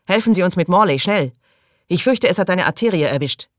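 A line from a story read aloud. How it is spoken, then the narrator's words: Calling out. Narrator (German): rief Bubble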